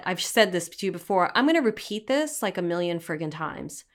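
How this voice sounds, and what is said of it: Brooklyn accent. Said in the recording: “I hear my Brooklyn accent coming out.”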